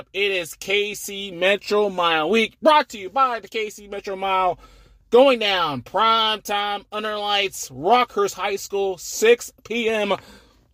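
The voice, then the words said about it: Excited, fired-up voice. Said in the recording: “As you can probably tell by my voice, probably more than usual, really fired up.”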